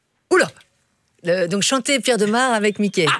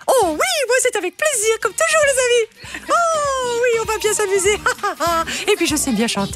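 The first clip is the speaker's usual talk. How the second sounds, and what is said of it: Cartoon mouse character voice. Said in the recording (French): “avec la voix de Mickey ... vous voulez faire Mickey?”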